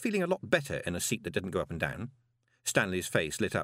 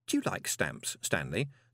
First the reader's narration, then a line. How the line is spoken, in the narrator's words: said Moist kindly